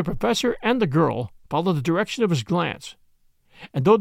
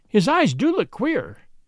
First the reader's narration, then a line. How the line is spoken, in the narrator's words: cried the young woman, strongly moved